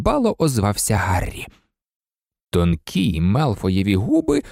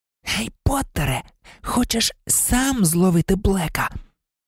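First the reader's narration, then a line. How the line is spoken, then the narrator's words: Hiss. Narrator (Ukrainian): Мелфой, злісно блимнувши очима на Гаррі, просичав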